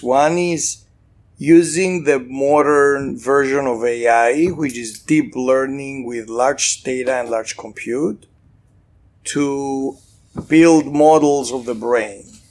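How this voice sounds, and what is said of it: Slight Greek accent. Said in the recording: “this is Greek. Slight Greek accent”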